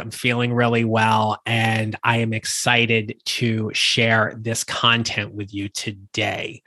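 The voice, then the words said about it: Slightly raspy voice. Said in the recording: “the voice is getting a little raspy”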